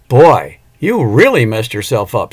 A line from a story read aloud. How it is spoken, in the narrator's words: Cindy exclaimed